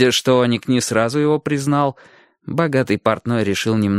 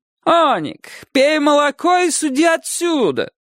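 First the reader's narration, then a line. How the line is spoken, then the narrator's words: Shouting man. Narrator (Russian): крикнул через некоторое время богатый портной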